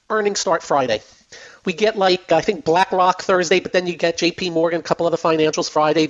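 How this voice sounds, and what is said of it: Hoarse, strained voice. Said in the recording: “if it sounds like I'm losing my voice, it's because I'm losing my voice.”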